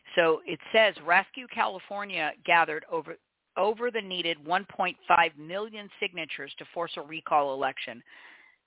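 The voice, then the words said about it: Frog in the throat, slightly hoarse. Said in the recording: “I've got a little bit of a frog in my throat.”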